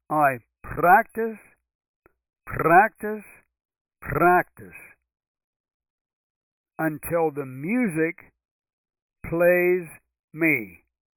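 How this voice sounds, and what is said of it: Attempted Russian accent. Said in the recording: “That's probably not the right accent. He was Russian”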